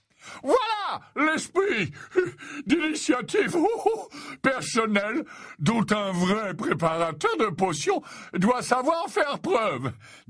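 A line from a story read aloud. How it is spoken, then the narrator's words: Delighted. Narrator (French): déclara Slughorn d'un ton ravi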